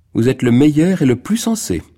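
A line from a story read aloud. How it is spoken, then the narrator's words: Exclaimed. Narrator (French): s'écria Margot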